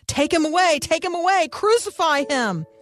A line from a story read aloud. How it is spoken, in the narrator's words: they shouted